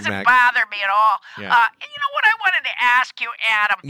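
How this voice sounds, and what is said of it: Thick Wisconsin accent. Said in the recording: “you're from Wisconsin, right? ... Much thicker accent this week than last week”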